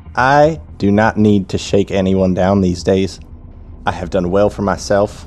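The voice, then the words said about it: Put-on accent. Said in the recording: “I just went into a different accent.”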